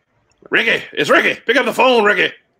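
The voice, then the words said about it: Bad imitation of another person's voice. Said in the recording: “doing a bad Ricky Henderson impression.”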